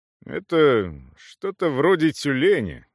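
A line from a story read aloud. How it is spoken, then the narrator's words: Uncertain. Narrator (Russian): неуверенно сообщил Эйб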